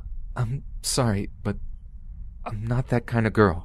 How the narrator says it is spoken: I said to him in a terrified, cracking voice

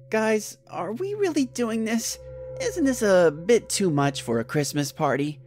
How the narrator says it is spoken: said in a hesitant voice

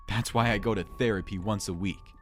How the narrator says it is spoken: laughed

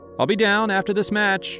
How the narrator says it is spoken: yelled back, more out of habit than anything else

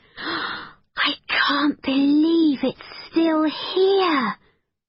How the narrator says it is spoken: breathed Becky

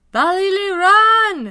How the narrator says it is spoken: Chukma hollered

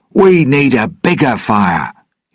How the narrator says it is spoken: he shouted in the language of the Pelagostos

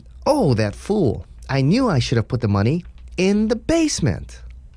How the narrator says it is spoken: Seeing the cash, she exclaimed

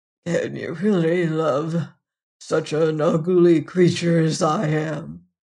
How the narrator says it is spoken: said the beast faintly

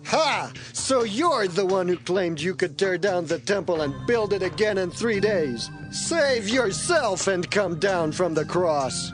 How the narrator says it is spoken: They shook their heads and shouted

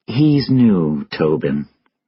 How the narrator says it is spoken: she said quietly

